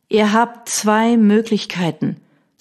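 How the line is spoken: Dangerously calm. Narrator (German): sagte gefährlich ruhig

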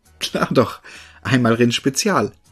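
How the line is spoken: Young man laughing. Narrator (German): lachte der junge Mann

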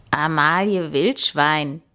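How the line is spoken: Croaking. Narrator (German): krächzte er

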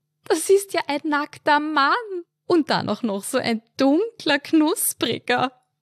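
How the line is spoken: Giggling like a teenage girl. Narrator (German): kicherte sie wie ein pubertierendes Mädchen

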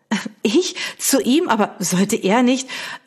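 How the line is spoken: Stammered. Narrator (German): stammelte sie

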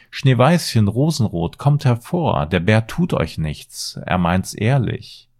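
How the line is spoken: Called out. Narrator (German): rief sie

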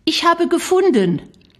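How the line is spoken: Calling out. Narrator (German): rief Shari

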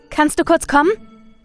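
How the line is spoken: Girlfriend calling from shower. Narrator (German): rief seine Freundin aus der Dusche

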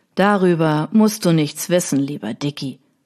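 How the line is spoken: Plain. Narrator (German): sagte ihr Cousin

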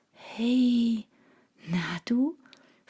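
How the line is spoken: Whispered to a cat. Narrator (German): flüsterte ich dem Kater zu

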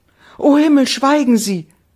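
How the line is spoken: Young woman's cry. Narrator (German): rief die junge Frau

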